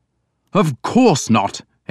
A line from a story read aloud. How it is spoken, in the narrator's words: Edmund said angrily